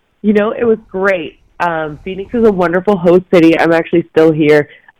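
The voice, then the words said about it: Strained, hoarse voice. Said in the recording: “My voice sounds terrible because it was a very loud event ... it's a little dry here too”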